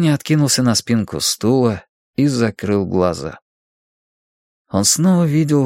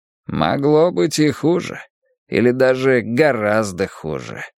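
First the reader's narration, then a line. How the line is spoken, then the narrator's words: Groggy grumble. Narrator (Russian): пробурчал он, возвращаясь к жизни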